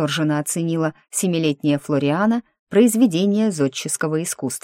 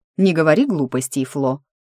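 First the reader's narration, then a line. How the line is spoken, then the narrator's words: Stern scolding. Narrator (Russian): строго пожурила ее Дениза, вторая жена дяди Берни и по совместительству мачеха неугомонной младшей кузины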